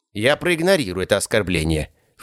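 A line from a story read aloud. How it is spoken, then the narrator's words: Snorting. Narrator (Russian): фыркнул Мот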